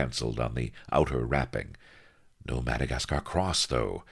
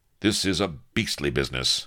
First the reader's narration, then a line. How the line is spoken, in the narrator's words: snapped Avery